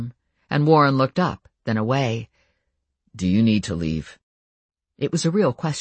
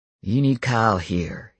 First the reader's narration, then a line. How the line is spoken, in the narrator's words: he said, his voice low